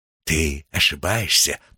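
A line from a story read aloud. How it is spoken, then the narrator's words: Whispering. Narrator (Russian): прошептал он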